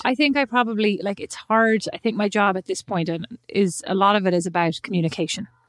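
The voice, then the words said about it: Irish accent. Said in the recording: “sounding very Irish.”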